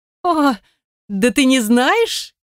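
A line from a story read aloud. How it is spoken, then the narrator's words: Hysterical laughter. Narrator (Russian): истерично расхохоталась девушка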